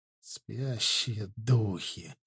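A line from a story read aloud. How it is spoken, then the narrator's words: Breathed out. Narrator (Russian): выдохнул Ардан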